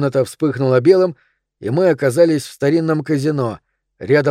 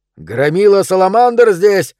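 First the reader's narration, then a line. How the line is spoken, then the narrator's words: Shouting. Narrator (Russian): закричал он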